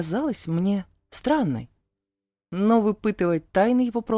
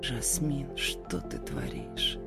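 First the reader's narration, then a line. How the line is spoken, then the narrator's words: Hoarse whisper. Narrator (Russian): прошептал заметно севшим голосом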